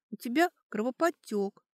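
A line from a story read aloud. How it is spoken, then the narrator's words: Sad young woman. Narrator (Russian): грустно сказала девушка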